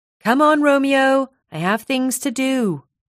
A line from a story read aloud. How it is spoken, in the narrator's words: shouted